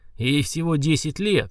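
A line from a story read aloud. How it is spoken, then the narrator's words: Barked, emperor. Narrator (Russian): рявкнул император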